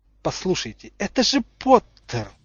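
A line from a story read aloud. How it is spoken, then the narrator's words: Spiteful. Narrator (Russian): злобно сказал Снейп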